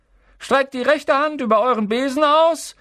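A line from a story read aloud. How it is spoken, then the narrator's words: Calling out. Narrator (German): rief Madame Hooch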